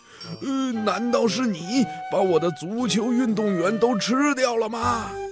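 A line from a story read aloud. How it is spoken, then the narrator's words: Angry shout. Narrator (Chinese): 布鲁姆博士非常生气，他冲着那只小黑鸟大声地吼了起来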